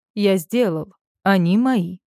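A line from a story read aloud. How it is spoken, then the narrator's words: Calm. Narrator (Russian): проговариваю спокойно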